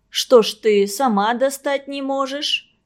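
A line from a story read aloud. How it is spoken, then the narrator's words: Grandmother's good-natured grumble. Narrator (Russian): добродушно проворчала бабушка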